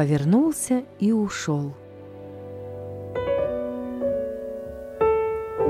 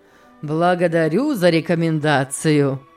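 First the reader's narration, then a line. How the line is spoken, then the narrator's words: Laughing. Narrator (Russian): рассмеялся Сен-Клер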